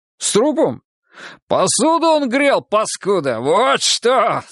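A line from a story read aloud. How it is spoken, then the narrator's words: Loud laughing. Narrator (Russian): захохотал Гога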